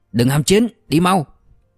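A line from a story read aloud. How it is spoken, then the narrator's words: Calm sharp shout. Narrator (Vietnamese): tên bình tĩnh nhất quát lên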